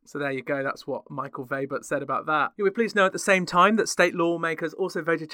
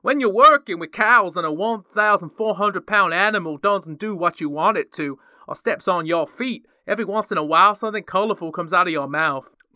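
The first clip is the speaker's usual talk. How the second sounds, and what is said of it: Put-on American Southern accent. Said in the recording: “he's going to have a Southern accent because that's just how I picture a farmer in America”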